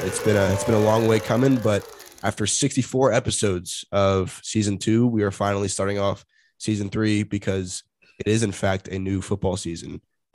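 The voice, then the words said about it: Congested, monotonous voice. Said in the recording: “my voice is a little bit weird because I am a little bit congested ... my more monotonous tone ... trying not to voice crack and trying not to strain my voice”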